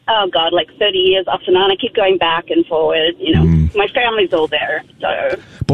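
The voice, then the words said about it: Australian accent. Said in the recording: “I detect an accent. ... I grew up in Australia. ... I was going to say New Zealand or Australia”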